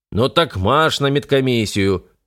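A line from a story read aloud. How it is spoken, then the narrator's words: Bark. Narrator (Russian): рявкнул Плато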